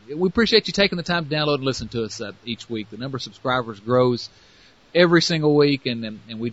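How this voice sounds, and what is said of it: Strong American Southern accent. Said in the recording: “my ridiculous southern accent ... figure out what I'm saying”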